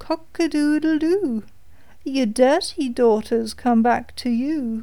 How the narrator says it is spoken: the cock on the well called out

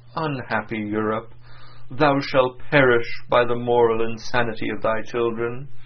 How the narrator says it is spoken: He was said to have exclaimed on his deathbed

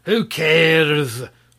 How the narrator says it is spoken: roared the sorcerer

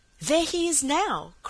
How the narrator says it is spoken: cried Dan, waving excitedly from the window

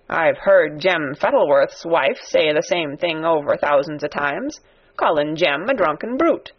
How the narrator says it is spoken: said Ben Weatherstaff dryly

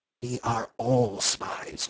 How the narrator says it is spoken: whispered Syme

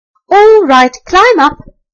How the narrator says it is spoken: called out the rat

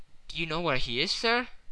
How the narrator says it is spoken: asked Eoda anxiously

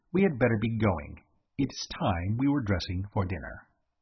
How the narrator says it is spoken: said coldly

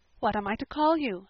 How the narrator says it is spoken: asked Anne

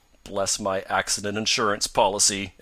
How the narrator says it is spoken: exclaimed Mr

